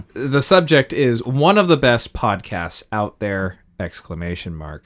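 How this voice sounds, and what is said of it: Flat, unenthusiastic, tired reading. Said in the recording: “Would have said it with more enthusiasm, but I'm very tired.”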